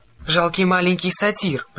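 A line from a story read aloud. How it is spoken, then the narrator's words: Roared. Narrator (Russian): проревела она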